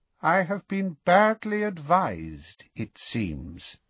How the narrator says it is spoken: said Harry, in a high, cold voice that pulsed with anger

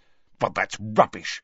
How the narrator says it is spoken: snapped Harry

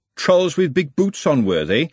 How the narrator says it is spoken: said Glenda, her voice all vinegar

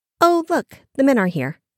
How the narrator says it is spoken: Serafina cried, nearly jumping out of her seat

